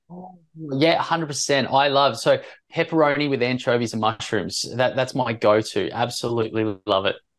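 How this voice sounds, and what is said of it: Australian accent. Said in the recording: “you are Aussie with that accent there”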